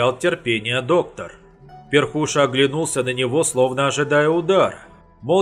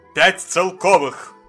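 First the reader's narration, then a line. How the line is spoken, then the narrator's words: Menacing tone. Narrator (Russian): Предложил доктор таким угрожающим тоном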